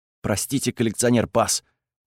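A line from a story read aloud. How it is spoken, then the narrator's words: Nervous mumble. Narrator (Russian): пробормотал Декс весь потный и бледный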